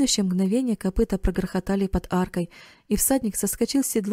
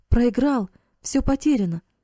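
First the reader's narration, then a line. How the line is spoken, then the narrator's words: Impatient exclamation. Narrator (Russian): воскликнул Карл, едва не топая от нетерпения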